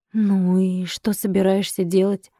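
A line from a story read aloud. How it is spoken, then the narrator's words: Gloomy flat exhale. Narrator (Russian): Мрачно, Сергей тускло выдохнул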